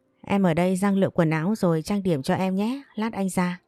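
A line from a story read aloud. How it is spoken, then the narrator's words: Smiling speech. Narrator (Vietnamese): Hoàng Hải mỉm cười nói với Thu Trà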